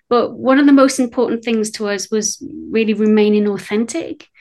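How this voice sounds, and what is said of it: British accent. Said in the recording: “you can tell from my accent, I'm British”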